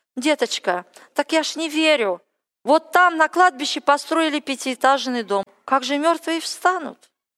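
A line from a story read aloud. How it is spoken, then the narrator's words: Quiet whisper in the ear. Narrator (Russian): Одна из моих родственниц, она была верующая … потихоньку мне на ухо шептала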